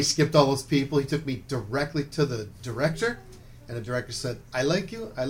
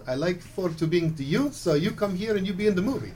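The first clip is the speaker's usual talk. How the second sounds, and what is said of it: Imitated foreign accent, broken English. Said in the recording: “Little fellow with a really neat accent”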